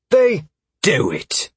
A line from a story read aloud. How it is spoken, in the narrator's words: Carver snapped